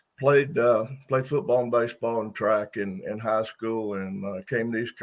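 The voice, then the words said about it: Slightly raspy voice. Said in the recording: “excuse my voice, a little raspy”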